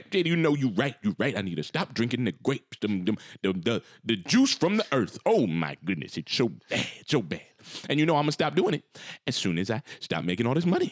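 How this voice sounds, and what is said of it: Impression of his father. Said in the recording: “I know he's your dad, but that is such a good impression.”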